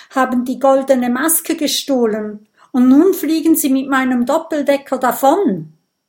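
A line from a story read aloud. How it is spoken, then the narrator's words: Gasping, angry and desperate. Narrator (German): japs Professor Champignon wütend und verzweifelt zugleich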